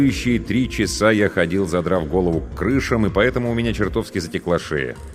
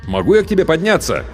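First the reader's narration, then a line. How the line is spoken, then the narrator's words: Shout. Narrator (Russian): крикнул я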